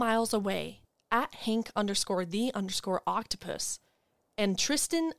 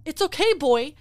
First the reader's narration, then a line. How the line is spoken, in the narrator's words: Violet shouts